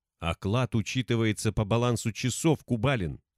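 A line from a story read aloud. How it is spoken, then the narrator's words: Angrier hiss. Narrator (Russian): Еще злее зашипела главбух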